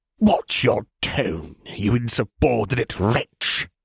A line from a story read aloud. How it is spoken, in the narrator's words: Ozzel hissed, eyes flashing with something rabid